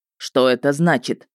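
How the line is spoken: Stern question. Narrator (Russian): строго спросил ведьмак

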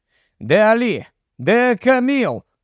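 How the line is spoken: Shouted in unison. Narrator (Ukrainian): крикнули одночас

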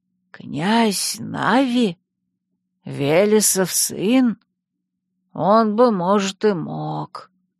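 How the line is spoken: Thoughtful old man's mutter. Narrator (Russian): задумчиво пробормотал старик

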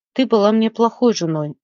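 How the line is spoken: Sighing. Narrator (Russian): вздохнул Николас

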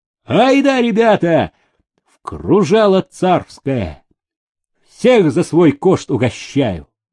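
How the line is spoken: Shout. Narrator (Russian): Туляк крикнул

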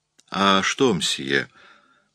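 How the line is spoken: Uncertain. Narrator (Russian): произнесла она неуверенно

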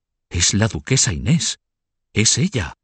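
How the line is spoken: Crowd whispering. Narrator (Spanish): susurraban

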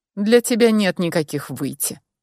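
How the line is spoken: Cold reply. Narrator (Russian): холодно ответил мой собеседник

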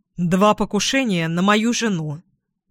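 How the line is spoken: Sharp reply. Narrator (Russian): резко ответила Двин

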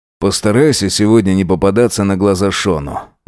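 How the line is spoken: Sighing. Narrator (Russian): вздохнул Джек

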